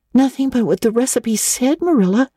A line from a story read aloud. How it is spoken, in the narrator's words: cried Anne, with a look of anguish